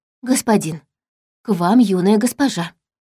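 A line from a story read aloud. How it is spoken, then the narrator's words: Quiet after deep sigh. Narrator (Russian): глубоко вздохнула, тихонько сказала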